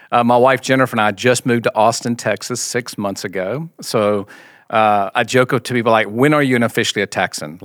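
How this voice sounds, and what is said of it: Mild Southern US accent. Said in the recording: “grew up in the Deep South in Mississippi, as you can tell by the accent. I still have a little bit of that accent.”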